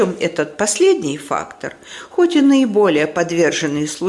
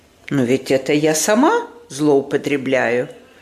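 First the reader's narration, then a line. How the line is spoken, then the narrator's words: Calm objection. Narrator (Russian): спокойно возражала мадам Резо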